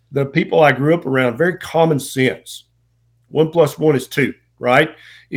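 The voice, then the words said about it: Southern US accent. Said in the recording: “I'm a Southern boy, as you may be able to tell from the accent.”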